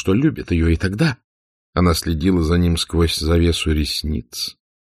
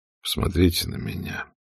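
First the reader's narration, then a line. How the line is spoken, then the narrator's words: Very quiet. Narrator (Russian): сказал он, наконец, очень тихо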